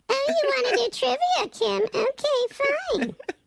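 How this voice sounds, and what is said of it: Playful mockingbird character voice. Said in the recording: “keep doing the mockingbird voice. So this is the mockingbird voice.”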